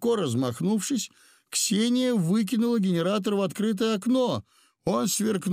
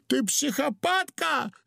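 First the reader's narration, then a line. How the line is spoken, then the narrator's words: Yelling. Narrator (Russian): завопил Удалов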